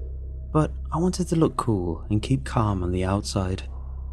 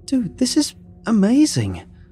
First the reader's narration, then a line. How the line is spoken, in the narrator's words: I blurted out